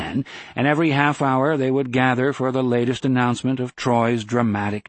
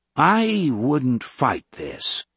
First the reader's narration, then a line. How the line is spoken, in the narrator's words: Geddes advised gravely